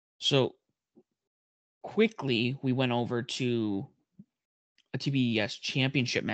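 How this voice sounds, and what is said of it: Usual voice. Nothing is said of it.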